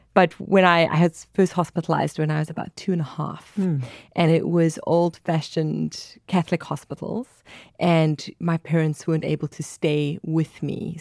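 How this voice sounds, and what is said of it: South African accent. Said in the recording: “I'm from South Africa. That's where the accent's from. ... Lovely accent.”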